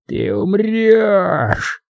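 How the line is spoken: Robber's hoarse whisper in ear. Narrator (Russian): просипел ему в ухо грабитель

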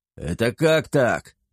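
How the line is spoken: Indignant yell. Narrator (Russian): придя в себя, возмущенно завопил он

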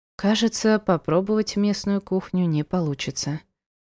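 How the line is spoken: Sigh. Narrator (Russian): вздохнула

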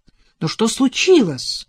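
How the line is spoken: Worried shout. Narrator (Russian): Озабоченно крикнул Адам вслед жене

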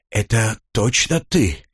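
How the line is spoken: Relieved exhale. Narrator (Russian): успокоенно выдохнул Лок

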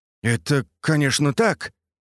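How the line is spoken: Confused professor muttering. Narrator (Russian): растерянно пробормотал профессор

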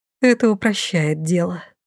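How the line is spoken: Relieved exhale. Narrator (Russian): с облегчением выдохнула я

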